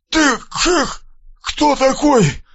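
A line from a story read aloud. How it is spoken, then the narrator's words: Strained forced words. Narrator (Russian): выдавил из себя Мальцев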